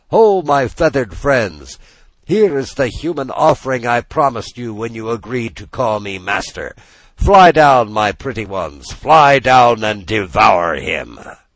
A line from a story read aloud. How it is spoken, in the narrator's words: Then the magician cried out to the gulls